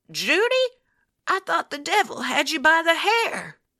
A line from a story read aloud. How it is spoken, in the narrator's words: She croaked